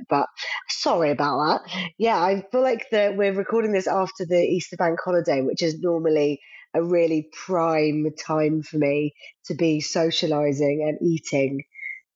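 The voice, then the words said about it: Voice sounds slightly unwell. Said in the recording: “you've been been not so well. ... You can probably still hear it in my voice a little bit”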